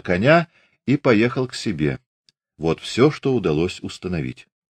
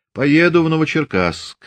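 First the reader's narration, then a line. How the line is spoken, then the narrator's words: Calm. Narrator (Russian): сказал он спокойно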